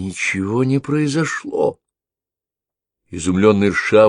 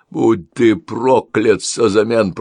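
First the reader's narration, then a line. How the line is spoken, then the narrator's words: Growled. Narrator (Russian): прорычал он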